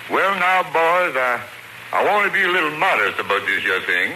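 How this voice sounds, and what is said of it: Put-on dialect voice. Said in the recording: “You do dialect, too, huh? You do dialect, too?”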